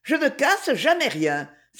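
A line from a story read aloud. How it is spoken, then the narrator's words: Triumphant exclamation. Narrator (French): s'écria-t-elle en redescendant triomphante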